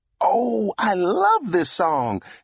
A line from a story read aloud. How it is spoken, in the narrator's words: exclaimed